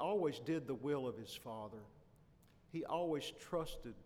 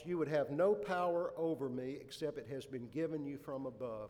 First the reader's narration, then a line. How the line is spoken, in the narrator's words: he said